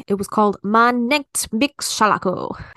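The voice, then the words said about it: German title read in Spanish accent. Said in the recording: “You said that in a Spanish accent.”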